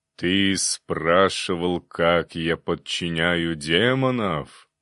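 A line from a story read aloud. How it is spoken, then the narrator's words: Booming bass question. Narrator (Russian): гулким басом спросила голова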